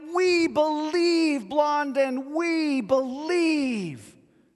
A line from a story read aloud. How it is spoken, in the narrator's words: the crowd, even more amped up than before, called out